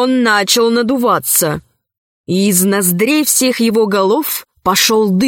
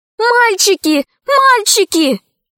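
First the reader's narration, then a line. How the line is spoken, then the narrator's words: Shouting. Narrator (Russian): закричала Алиса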